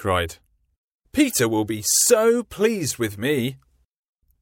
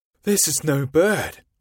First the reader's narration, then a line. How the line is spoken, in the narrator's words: he said in a scared voice